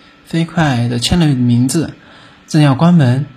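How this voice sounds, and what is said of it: Usual voice. Nothing is said of it.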